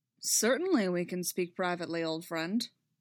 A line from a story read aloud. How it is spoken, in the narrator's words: Dooku said dryly